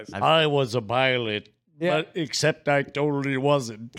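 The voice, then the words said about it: Imitates early text-to-speech voice. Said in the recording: “read by super early text-to-speech... that impression is fucking perfect”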